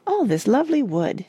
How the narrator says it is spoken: it said happily

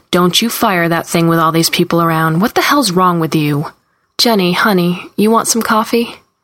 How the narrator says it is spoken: Carlene says sharply

